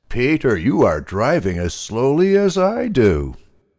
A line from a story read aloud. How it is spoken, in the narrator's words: Molasses Pig laughed and said